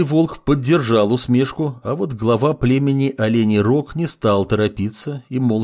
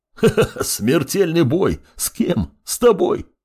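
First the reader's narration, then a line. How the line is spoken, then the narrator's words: Bear roaring with laughter. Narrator (Russian): расхохотался медведь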